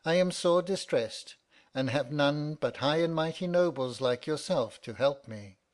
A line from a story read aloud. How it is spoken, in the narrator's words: replied he in a pitiful tone